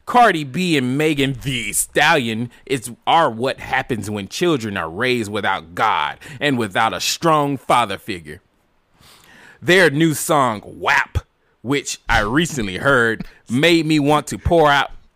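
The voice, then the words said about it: Mocking annoying Twitter voice. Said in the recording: “in your white voice again ... This is not even my white voice. This is my annoying Twitter voice.”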